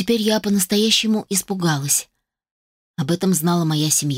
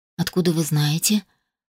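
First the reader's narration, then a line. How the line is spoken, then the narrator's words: Barely audible rasp. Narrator (Russian): прохрипела едва слышно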